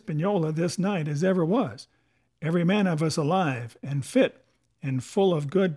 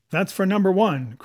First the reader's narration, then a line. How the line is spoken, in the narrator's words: cried the accused, with a vehemence that shook the house